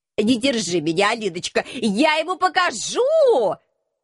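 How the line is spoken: Shouting while struggling. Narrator (Russian): кричал профессор, вырываясь из моих рук

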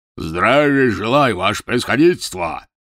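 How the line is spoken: Deafening bark. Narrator (Russian): гаркнул оглушительным голосом

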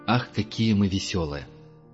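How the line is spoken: Deeply irritated muttering. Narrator (Russian): пробормотал Герман, раздраженный до глубины души

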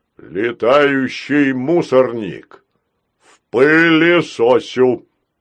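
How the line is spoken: Robotic drone. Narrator (Russian): опять прогудел робот

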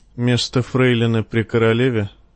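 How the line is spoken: Dull, flat question. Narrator (Russian): тусклым голосом спросила она

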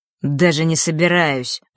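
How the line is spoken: Said through gritted teeth. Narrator (Russian): процедил Марк

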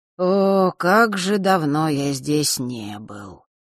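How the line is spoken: Regretful drawl. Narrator (Russian): с некоторым сожалением протянул светловолосый

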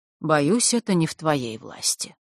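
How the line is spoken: Sad. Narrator (Russian): грустно Александр

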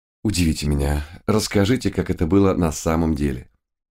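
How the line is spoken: Quiet question. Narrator (Russian): тихо спросил

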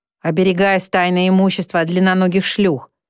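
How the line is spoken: Gloomy. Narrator (Russian): мрачно отвечает Сфинкс

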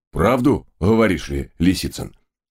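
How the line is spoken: Loud chuckle. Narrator (Russian): в голос хохотнул рыжий кэбмен с белой полосой вдоль морды

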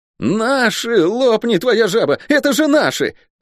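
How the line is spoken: Ecstatic yell. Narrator (Russian): восторженно завопил Лук

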